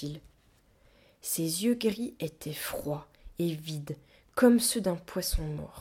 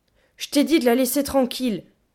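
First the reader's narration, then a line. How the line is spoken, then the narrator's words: Growling. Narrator (French): grogna-t-elle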